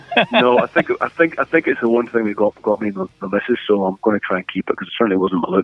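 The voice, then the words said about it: Irish accent. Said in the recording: “You haven't lost your accent ... nice nice to talk to fellow Irishmen”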